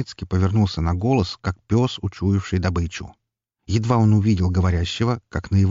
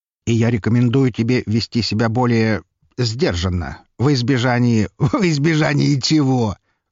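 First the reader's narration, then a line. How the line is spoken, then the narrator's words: Chuckling. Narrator (Russian): хохотнул Броницкий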